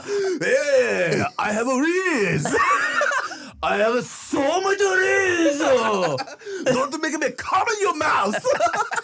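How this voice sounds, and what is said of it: Slang in a put-on Japanese accent. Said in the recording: “the same shit you would say, but just with a Japanese yeah. accent ... Fucking slang, but with a Japanese accent.”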